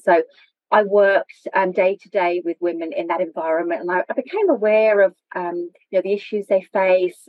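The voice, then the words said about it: British English accent. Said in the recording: “as you're probably able to tell from my accent, I am originally from the UK”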